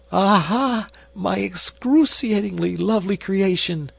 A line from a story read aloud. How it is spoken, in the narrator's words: he cried